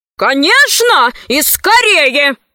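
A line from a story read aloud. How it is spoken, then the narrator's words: Crowd of nobles shouting. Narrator (Russian): закричали вельможи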